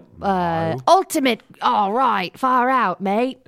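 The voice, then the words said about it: Bad put-on Australian accent. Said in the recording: “Australian accent. ... We're so bad at these accents.”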